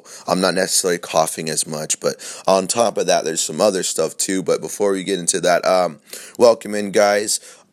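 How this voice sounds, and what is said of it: Scratchy, sore-throated voice. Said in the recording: “My voice is a little scratchy because I did catch a little bug the other day... You can just definitely tell I have a sore throat.”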